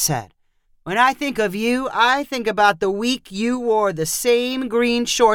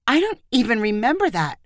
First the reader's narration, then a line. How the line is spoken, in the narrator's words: Gwen replied in an injured voice